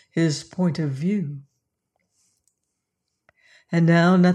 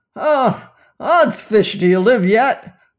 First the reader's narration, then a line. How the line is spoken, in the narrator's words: roared he in a drunken frenzy